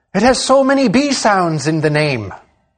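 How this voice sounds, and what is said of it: Attempted Irish accent, not convincing. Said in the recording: “That was me trying to have an Irish accent... I don't know that it quite worked”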